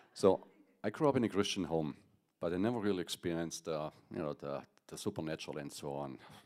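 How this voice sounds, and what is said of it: German accent. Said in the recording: “I'm from Germany, if you can't tell on my accent.”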